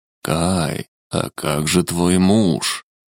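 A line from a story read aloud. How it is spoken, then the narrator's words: Pleading appeal. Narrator (Russian): Михаэль попытался воззвать к чувству самосохранения темной эльфийки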